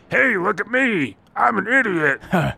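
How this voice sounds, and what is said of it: Imitates another person's voice. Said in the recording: “Here's my impression of him.”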